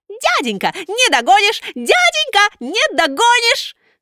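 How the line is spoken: Teasing squeak. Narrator (Russian): Буратино, дразнясь, запищал

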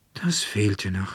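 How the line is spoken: Annoyed sigh. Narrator (German): seufzte Veronika und ärgerte sich recht

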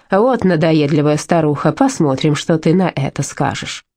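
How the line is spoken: Grumbling. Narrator (Russian): Сестра Евангелина пробурчала

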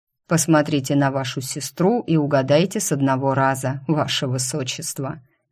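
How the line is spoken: Smirking snort. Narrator (Russian): хмыкнул Энрике

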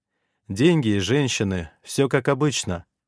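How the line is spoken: Gloomy boast. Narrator (Russian): мрачно похвастался я

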